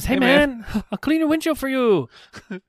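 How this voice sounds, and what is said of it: Put-on Japanese accent. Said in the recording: “I think I just used a Japanese accent.”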